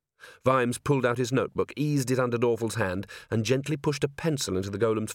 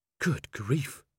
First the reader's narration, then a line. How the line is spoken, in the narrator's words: breathed Angua